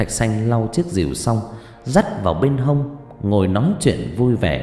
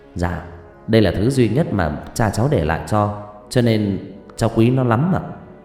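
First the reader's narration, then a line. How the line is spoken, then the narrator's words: Smiling. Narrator (Vietnamese): Thạch Xanh vừa lau vừa mỉm cười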